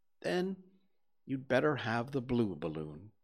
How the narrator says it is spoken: you said

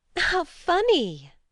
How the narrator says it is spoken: laughed Grace

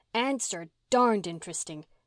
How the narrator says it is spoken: exclaimed Mary, glad to escape the shadowy piper's thrall

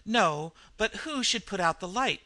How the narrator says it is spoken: cried Henderson

